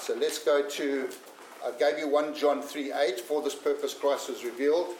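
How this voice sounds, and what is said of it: African accent. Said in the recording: “my accent is. I tell people I'm from Africa”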